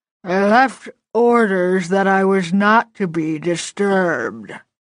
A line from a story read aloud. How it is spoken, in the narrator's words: repeated it 3 more times